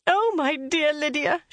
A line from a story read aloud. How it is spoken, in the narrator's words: she cried